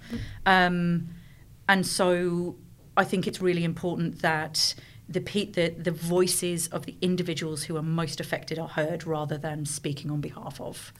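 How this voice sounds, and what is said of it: English accent. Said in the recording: “I'm speaking with an English accent”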